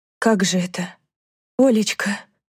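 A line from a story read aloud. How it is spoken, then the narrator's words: Whisper. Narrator (Russian): прошептала Данка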